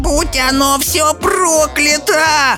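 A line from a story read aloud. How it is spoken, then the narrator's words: Wailing scream. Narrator (Russian): завопила Софи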